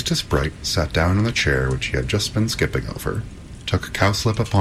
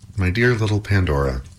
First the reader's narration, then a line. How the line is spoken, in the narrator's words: answered Epimetheus